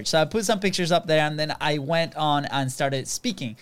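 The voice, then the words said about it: Venezuelan accent in English. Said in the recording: “clearly we have also an accent. We're not from Virginia, but we're from Venezuela. And our English is not very good looking”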